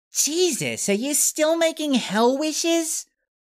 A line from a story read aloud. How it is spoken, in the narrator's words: Kate scoffed